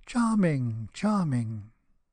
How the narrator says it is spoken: everybody cried out

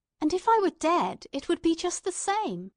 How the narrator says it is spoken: exclaimed

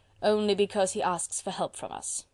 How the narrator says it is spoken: quoth Robespierre dryly

